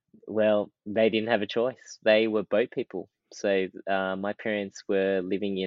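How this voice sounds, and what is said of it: Strong Australian accent. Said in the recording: “I have a very strong Australian accent compared to my family.”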